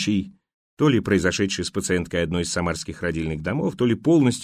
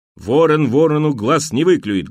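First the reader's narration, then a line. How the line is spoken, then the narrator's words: Rough interruption. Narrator (Russian): грубо оборвал ее муж роженицы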